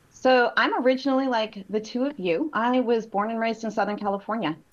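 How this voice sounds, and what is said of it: Valley Girl twang. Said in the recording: “I am a Valley girl ... I hear a little bit of an accent ... I still have a Valley Girl twang, so I sound like I have an accent”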